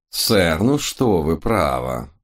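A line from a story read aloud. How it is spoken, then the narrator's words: Reproachful drawl. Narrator (Russian): укоризненно протянул мой учитель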